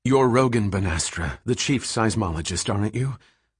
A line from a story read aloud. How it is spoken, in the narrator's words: She said a bit breathlessly